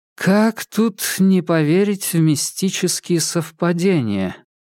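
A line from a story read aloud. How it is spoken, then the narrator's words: Drawling witch. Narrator (Russian): протянула ведьма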